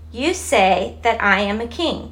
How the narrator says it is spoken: Jesus answered

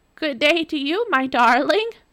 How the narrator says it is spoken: croaked the wicked king

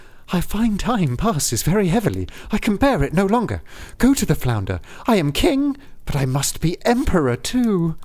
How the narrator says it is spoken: said the woman quite anxiously

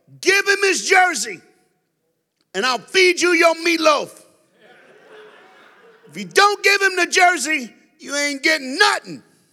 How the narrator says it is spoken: she yelled

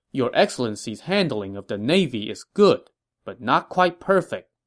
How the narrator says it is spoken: Pang Tong answered

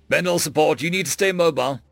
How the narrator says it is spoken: Marcel growled into his headset

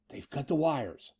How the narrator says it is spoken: Eddie whispered hoarsely

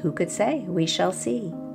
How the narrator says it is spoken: The farmer calmly and softly said

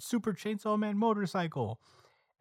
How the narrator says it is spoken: Asa shouts out

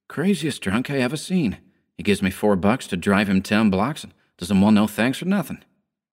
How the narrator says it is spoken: muttering

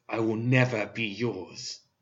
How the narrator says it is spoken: snarled

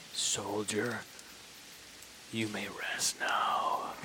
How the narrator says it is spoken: Chubbs is just gonna whisper to him and say

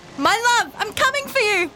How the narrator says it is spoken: I'm going to shout

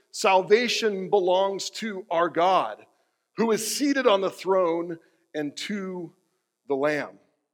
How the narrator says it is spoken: they cried out in a loud voice

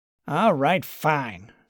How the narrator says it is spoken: snapped Clyde

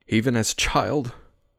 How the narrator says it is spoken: my voice caught

